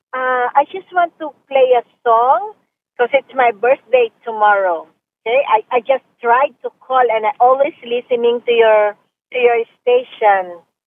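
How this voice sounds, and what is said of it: Filipino accent. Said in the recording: “Where are you from originally? ... Originally, I'm from Philippines. ... You have a beautiful accent.”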